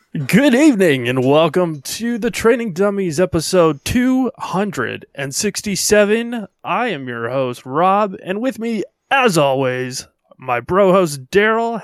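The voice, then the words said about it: Radio announcer voice. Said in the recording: “do the radio voice”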